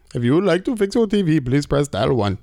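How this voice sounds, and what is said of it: Put-on customer service accent voice. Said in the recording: “he only can do one accent... That is my only accent... sometimes it's questionable because it digresses into something really weird... I only actually have the customer service voice... it no longer sounds like the right accent”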